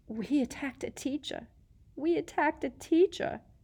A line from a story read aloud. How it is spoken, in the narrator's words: Hermione whimpered